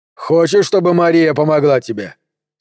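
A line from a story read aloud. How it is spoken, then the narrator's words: More reasonable question. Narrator (Russian): спросил Вольфганг более разумным тоном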